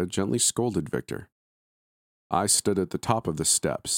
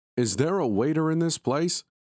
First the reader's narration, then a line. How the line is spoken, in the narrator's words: Victor shouted